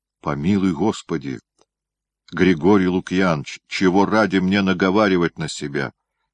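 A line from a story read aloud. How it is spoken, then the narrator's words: Calm, smiling. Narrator (Russian): спокойно, с улыбкой, ответил Истома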